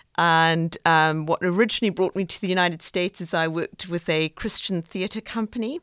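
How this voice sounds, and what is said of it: South African accent. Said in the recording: “I talk funny ... I originally hail from South Africa ... I thought that accent was a New Jersey accent”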